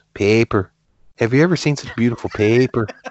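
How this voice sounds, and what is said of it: Imitated Irish-sounding accent. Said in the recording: “His accent, ... it almost was like, okay, he's from Ireland or someplace and just letting it go full force”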